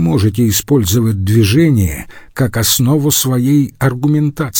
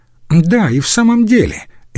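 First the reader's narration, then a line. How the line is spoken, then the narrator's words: Cheerful. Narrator (Russian): весело сказал один из лиценциатов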